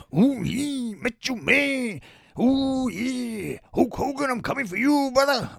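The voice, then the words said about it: Gruff Macho Man Randy Savage impression. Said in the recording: “here's Macho Man, dead Macho Man, to say goodbye ... my voice is really hurting ... Just a gruff one”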